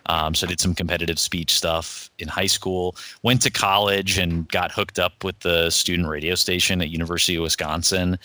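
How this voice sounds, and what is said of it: Radio announcer voice. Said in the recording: “you have such a radio voice. ... You have a radio voice.”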